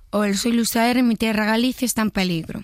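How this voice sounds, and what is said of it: Imitates another person's voice. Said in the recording (Spanish): “Luis Zahera normal ... Un poco más rasgado, si puedes.”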